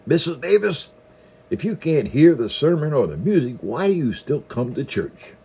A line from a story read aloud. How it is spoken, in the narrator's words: hollered in her good ear